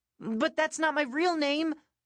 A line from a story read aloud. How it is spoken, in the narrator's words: I said desperately